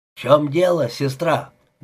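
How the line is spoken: Loud question. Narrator (Russian): громко спросил сержант

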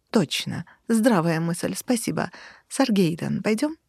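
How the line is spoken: Insinuating question. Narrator (Russian): вкрадчиво спросил

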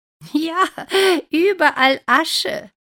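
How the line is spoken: Laughing. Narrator (German): lacht Rosa

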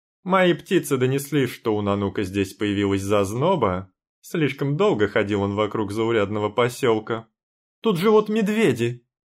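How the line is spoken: Shouted out. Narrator (Russian): выкрикнула

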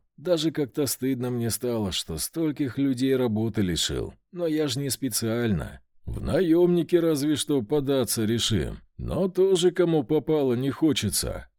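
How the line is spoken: Sighing. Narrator (Russian): вздохнул командир громобоев

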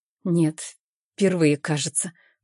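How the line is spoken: Uncertain, hesitant. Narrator (Russian): произношу неуверенно

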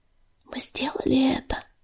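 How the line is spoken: Whisper. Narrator (Russian): прошептала она

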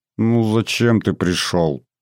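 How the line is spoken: Suffering voice. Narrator (Russian): заговорила она страдающим голосом

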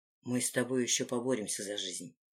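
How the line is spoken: Quiet. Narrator (Russian): произнес он тихо

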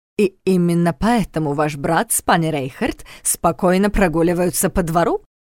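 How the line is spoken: Snorting. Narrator (Russian): хмыкнул Страх

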